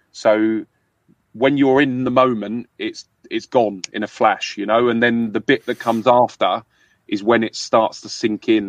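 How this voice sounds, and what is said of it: London English accent. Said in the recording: “I mine is a London accent.”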